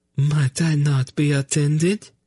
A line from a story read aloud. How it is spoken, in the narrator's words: Narina asked in a small, trembling voice